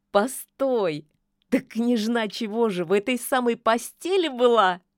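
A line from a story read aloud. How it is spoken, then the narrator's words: Laughing old witch. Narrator (Russian): засмеялась яга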